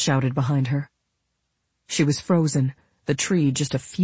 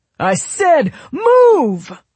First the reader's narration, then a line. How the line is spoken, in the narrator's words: Royal yelled